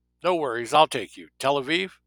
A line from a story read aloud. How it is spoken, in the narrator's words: He called out